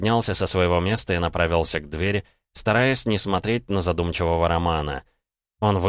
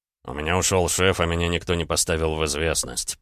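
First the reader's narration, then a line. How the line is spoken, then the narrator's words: Grumbling. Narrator (Russian): пробурчал Рома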